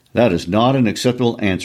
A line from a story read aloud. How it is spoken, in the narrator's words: he said